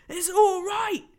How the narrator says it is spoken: he was shouting

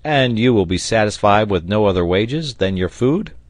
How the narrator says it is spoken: Third affirmative grunt

